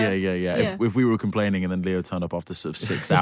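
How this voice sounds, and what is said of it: Usual voice. Nothing is said of it.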